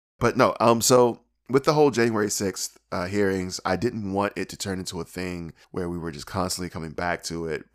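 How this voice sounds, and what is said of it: Hoarse, strained voice. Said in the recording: “I can barely do. I am really shredded on the vocals right now”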